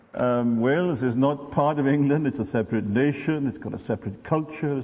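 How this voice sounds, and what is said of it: Welsh accent. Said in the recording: “the accent you're hearing is Welsh, not English”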